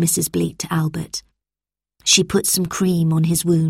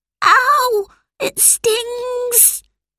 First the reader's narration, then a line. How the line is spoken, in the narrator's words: cried Albert